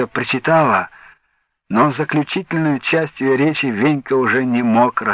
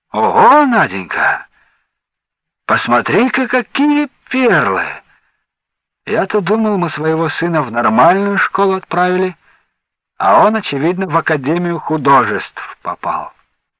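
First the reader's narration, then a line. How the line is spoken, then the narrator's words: Astonished exclamation. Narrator (Russian): пораженно воскликнул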